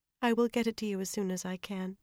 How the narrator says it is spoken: she said at last, in a resigned voice

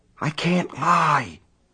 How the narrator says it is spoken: he whispered into the telephone

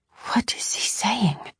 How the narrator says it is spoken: I whispered

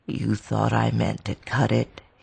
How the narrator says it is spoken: he finished grimly

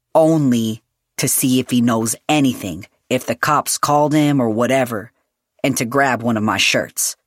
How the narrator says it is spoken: Julian said firmly

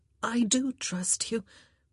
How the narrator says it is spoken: she said in a shaky voice

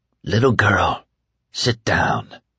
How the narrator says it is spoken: Mother Abigail whispered

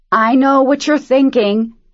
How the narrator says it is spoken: he shouted over the roar of the engine

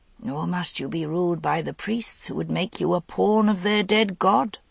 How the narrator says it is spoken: said Vivian quietly

